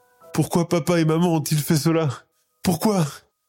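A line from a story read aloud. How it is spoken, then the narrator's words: Sobbing repetition. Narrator (French): répète-t-elle entre deux gros sanglots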